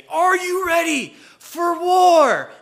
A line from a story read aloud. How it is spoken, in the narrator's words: I would yell that much louder than I did